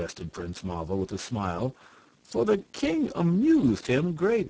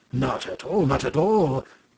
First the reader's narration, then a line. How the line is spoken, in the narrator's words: cried King Wooltakem